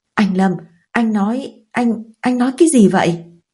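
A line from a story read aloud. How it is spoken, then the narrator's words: Stunned stammering question. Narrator (Vietnamese): tôi sững người, lắp bắp hỏi lại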